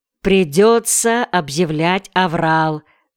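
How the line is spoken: Plain. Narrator (Russian): сказал он Теркинто

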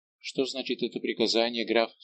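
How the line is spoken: Plain. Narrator (Russian): спросил Рауль

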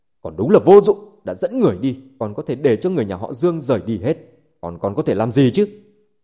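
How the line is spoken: Angry. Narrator (Vietnamese): Trần Hưng Hải tức giận nói

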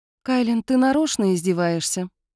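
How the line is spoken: Gloomy question. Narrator (Russian): мрачно поинтересовалась Эйлин

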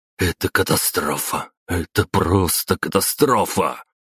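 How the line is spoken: Muttering while fleeing. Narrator (Russian): Бормотал граф Сергей Семенович Апраксин-старший, вместе со своими приближенными, улепетывая по подземному тоннелю

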